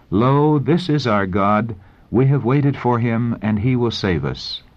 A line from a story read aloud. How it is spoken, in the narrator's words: the voices of the saints in joyful strains, exclaiming